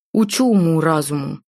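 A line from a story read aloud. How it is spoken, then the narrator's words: Grumbling. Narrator (Russian): проворчал он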